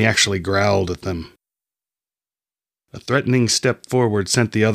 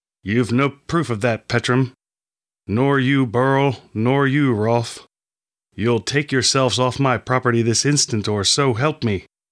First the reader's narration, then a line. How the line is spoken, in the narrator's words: said through clenched teeth